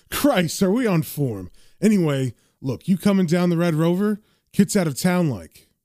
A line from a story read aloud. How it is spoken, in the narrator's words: John laughs, saying